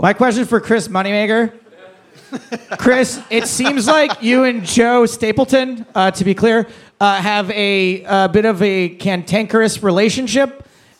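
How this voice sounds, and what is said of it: Welsh accent. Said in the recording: “I'm from Wales. I'm Welsh. ... If you can understand me with the accent, I know it sometimes is difficult.”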